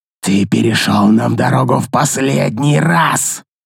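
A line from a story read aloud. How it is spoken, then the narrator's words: Loud angry hiss. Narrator (Russian): Злобно и весьма громко прошипел он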